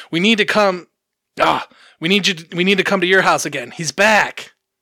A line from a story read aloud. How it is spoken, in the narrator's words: He yelled to his mother on the phone